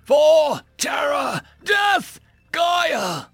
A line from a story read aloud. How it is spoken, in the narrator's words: The deep roar of 1,000 war horns and human battle cries